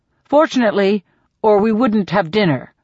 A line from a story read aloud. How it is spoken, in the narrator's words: says Gale